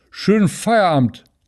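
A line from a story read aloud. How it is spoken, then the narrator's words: Slurred drunken farewell. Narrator (German): lallte Tünnes ihm noch hinterher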